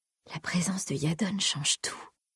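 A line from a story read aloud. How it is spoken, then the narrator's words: Murmured. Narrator (French): murmura-t-elle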